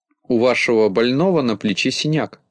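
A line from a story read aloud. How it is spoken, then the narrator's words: Plain. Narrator (Russian): сказала она Синеглазке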